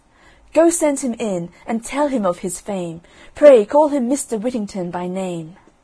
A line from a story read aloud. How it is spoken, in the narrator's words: the merchant called out to his servants